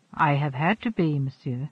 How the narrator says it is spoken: replied Lacey quietly

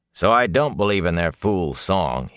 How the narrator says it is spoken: he growled

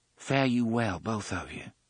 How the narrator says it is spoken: she said softly

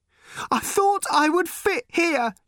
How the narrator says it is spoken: she cried

